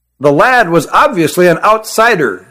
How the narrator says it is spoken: said Issar

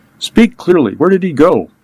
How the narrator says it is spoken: Agostino gasped out

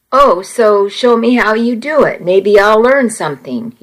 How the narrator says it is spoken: he said

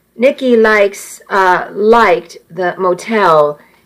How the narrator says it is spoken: he said, his voice catching

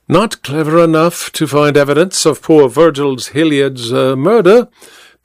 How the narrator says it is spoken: the detective replied blandly

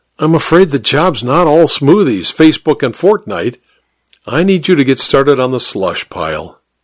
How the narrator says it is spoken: I said with a sigh

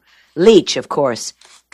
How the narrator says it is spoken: Trag said

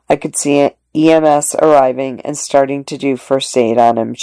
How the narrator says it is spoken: she said

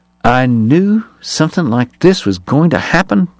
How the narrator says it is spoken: Bat muttered

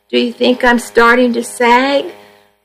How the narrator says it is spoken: I cried

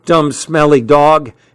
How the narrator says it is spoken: Hal shouted

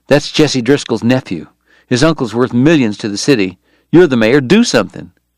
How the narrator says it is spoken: Bob Wright said, his voice low and urgent

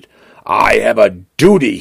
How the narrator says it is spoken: he growls

